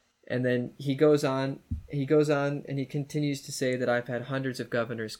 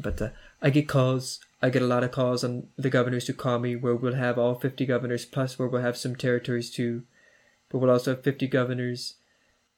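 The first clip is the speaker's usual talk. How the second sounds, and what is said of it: Imitates another person's voice. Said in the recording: “I'm going to attempt a poor impersonation”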